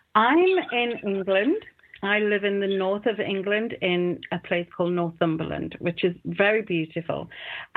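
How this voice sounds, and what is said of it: English accent. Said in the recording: “she's got a beautiful, beautiful accent”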